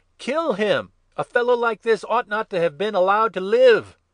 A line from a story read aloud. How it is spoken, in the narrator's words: they called out